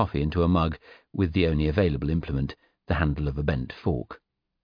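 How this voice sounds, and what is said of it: Usual voice. Nothing is said of it.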